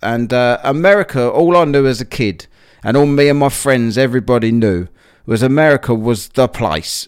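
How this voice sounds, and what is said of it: British accent, not American. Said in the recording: “you might be able to tell I don't sound American, but uh, I come from the UK”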